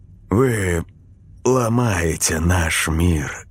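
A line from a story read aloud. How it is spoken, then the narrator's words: Sad pronouncement. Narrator (Russian): грустно изрек Долонский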